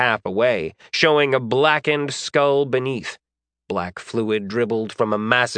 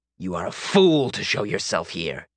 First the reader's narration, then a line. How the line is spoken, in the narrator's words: he hissed